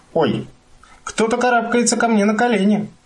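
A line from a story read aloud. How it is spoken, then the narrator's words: Little child's exclamation. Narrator (Russian): воскликнула малышка Мю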